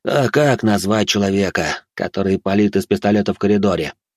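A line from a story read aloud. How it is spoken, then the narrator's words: Weary question. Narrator (Russian): устало осведомился у него начальник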